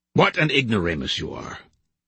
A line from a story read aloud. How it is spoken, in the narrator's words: replied Susutomo